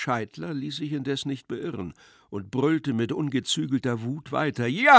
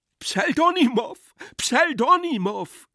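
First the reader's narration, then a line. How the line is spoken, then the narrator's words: Shouting. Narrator (German): schrie Iwan Iljitsch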